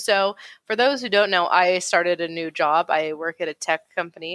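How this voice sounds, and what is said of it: Usual voice. Nothing is said of it.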